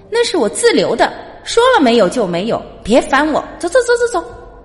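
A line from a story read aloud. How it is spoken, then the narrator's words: Angry, embarrassed roaring. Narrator (Chinese): 老板恼羞成怒，跳起来连吼带挥手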